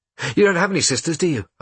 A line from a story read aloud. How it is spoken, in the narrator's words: asked Bruno quickly, pretending he hadn't heard that